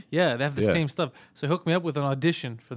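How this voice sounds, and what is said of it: Heavy accent. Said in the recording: “My accent is so heavy.”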